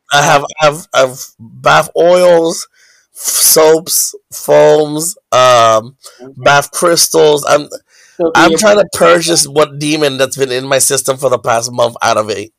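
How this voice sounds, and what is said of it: Congested, stuffy-nosed voice. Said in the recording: “You sound congested. ... Yes, I've been congested for weeks”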